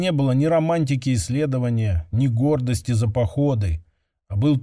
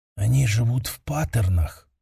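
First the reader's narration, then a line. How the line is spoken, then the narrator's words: Whispering. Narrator (Russian): прошептала Сейрион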